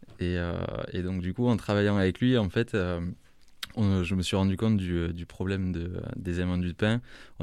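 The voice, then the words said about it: Slight regional French accent. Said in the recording (French): “Parce qu'il y a un petit accent quand même.”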